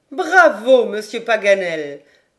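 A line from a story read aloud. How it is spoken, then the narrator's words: Laughing exclamation. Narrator (French): s'écria Lady Helena en riant de bon cœur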